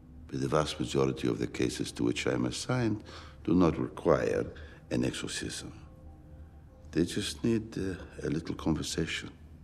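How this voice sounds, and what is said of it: Put-on Roman Italian accent. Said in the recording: “using the same exact accent that he did in Thor, Love and Thunder, except spiced up a little bit ... he's a little bit more Roman”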